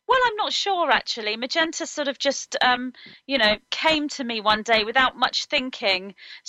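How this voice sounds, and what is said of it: British accent. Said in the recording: “I love your British accent ... you're from Britain”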